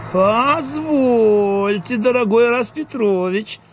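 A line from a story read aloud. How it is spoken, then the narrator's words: Cheeky drawl. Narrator (Russian): развязно протянула, то есть протянул Дуэнья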